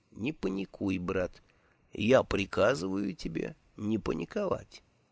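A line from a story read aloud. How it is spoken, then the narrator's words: Quiet voice close to ear. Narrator (Russian): Чей-то голос у самого его уха тихо произнес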